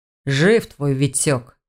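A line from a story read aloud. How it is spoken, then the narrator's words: Grudging speech through teeth. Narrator (Russian): сквозь зубы процедил, как будто был разочарован этим фактом, хотя в его глазах явно читалось облегчение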